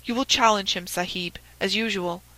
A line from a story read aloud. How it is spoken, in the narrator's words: whispered Abdullah